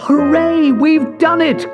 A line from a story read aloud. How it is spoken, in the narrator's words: cried Leo